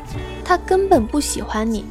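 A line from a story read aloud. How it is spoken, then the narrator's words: Blunt. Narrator (Chinese): 我很直接的跟他说了一句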